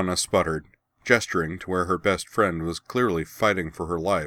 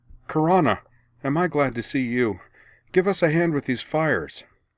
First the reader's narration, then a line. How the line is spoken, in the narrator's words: At the sight of her, Anne cried